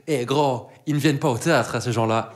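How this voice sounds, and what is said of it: Woman's voice with strong accent. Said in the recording (French): “avec le plus bel accent possible”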